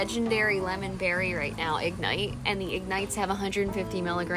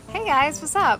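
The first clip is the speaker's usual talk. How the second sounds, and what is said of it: Girly voice. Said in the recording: “do it in your girly voice.”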